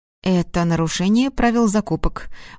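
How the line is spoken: Grim. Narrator (Russian): мрачно произнес специалист сектора снабжения

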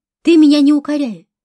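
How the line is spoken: Sharp reply. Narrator (Russian): резко ответила Хуршида

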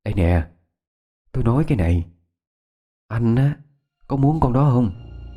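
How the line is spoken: Low, hushed voice. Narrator (Vietnamese): Yến nhỏ giọng

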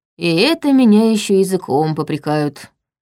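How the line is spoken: Sigh. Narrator (Russian): вздохнул он

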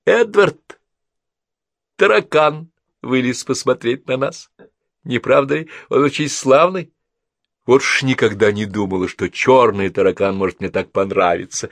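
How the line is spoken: Sudden laughing speech. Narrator (Russian): Мидж, внезапно рассмеявшись, сказала

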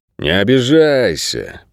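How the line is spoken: Drawling. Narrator (Russian): протянул Бут

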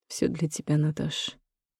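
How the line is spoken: Quiet answer. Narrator (Russian): отвечает тихо

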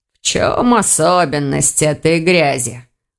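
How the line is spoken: Growling mage. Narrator (Russian): прорычал маг

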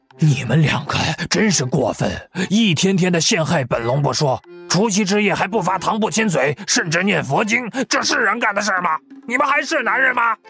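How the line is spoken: Angry scolding. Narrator (Chinese): 柳十三一下化作了原形，怒喷

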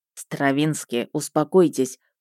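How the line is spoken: Quiet request. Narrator (Russian): попросил Мердок негромко

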